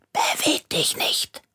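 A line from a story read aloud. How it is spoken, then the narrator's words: Whispered. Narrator (German): flüsterte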